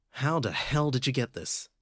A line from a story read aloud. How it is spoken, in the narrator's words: asked